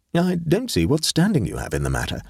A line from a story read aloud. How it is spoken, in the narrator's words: said the artist